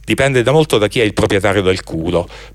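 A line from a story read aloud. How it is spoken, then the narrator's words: Nervous growl. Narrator (Italian): si morse nervosamente le labbra e ringhiò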